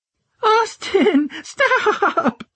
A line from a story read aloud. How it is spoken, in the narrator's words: she laughed uncontrollably